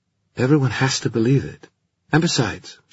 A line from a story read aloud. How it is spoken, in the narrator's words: she added hastily